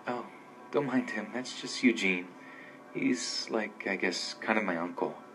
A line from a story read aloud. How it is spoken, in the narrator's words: she said in her soft voice